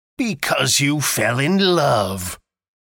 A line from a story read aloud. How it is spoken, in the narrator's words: growled Scrooge, as if that were the only one thing in the world more ridiculous than a Merry Christmas